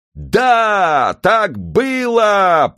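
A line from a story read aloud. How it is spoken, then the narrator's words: Crowd roaring obediently. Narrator (Russian): послушно взревела толпа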